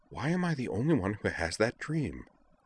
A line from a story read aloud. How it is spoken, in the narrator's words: Zoner looked disappointed, muttering